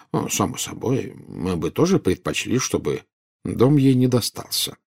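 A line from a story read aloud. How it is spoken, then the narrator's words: Calm. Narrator (Russian): спокойно сказал Дамблдор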